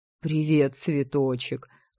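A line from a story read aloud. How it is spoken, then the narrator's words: Chuckling. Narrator (Russian): хохотнул друг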